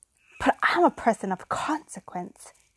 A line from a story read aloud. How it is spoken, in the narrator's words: gasped